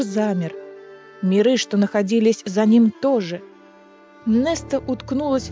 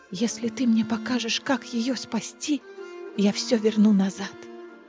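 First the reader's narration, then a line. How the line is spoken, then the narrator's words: Whisper. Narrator (Russian): Неста прошептала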